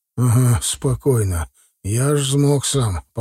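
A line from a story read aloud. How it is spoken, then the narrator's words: Hoarse. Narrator (Russian): проговорил хрипло Хаткевич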